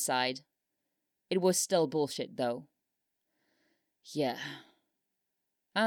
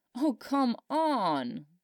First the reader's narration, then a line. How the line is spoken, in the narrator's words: he groaned